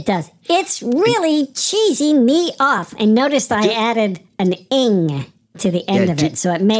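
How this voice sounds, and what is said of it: Usual voice. Nothing is said of it.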